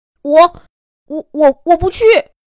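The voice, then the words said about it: Quiet, stammering small voice. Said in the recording (Chinese): “小声说了一句”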